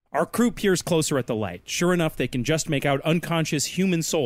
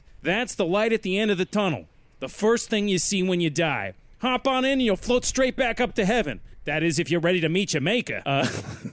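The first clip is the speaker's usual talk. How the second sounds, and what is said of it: Inconsistent put-on character accent. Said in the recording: “this accent is all over the place.”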